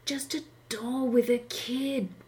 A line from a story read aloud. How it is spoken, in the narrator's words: whispered Junkie